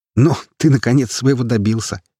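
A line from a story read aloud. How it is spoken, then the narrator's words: Sarcastic smirk. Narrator (Russian): ехидно усмехнулся я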